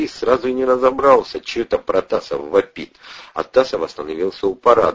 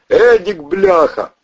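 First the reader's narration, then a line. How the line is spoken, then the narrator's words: Loud yelling. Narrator (Russian): вопил на весь двор Валера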